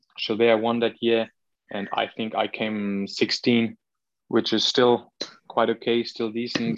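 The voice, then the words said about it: Austrian-accented English. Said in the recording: “accent? The Austrian accent, very, very nice”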